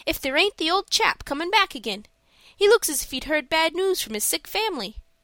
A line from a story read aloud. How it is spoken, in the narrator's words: he exclaimed suddenly